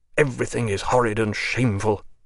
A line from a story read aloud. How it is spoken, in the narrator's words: he muttered